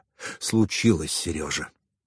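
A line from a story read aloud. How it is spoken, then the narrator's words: Sighed. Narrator (Russian): вздохнул Михаил Петрович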